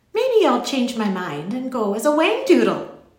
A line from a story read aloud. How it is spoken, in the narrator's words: said brightly